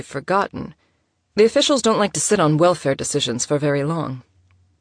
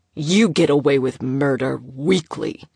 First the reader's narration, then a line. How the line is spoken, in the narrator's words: her father snarled